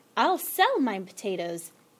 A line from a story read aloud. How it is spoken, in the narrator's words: exclaimed Mr